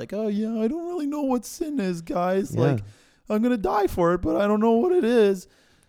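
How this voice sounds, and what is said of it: Impression of Jesus. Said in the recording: “great Jesus impression ... That was my Jesus impression if he didn't know what sin was”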